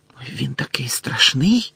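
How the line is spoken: Whispered. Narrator (Ukrainian): зашепотіла Парваті

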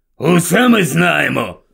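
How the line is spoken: Grumbling mutter. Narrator (Ukrainian): буркнув дядько Вернон

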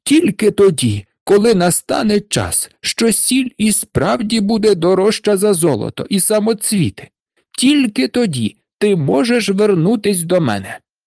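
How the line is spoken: Shouting. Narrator (Ukrainian): закричав він на Марушку

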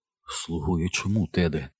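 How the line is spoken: Near whisper. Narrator (Ukrainian): майже прошепотів Бобі

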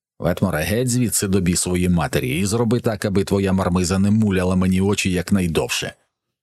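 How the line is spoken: Angry growl. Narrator (Ukrainian): Сердито прогорчав брутальник

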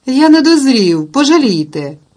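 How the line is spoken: Pleading exclamation. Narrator (Ukrainian): вигукнув Майкл, благаючи

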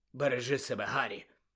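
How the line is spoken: Hoarse. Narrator (Ukrainian): Сіріус хрипло сказав

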